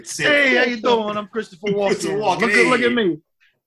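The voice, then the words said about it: Christopher Walken impression. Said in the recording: “I can't do a Walken impression. I wish I could.”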